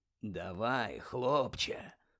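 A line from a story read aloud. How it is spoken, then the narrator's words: Whispered. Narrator (Ukrainian): прошепотів Муді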